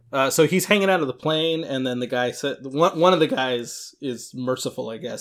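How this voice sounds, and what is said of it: Usual voice. Nothing is said of it.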